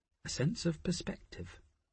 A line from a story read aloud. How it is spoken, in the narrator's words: Nicola murmured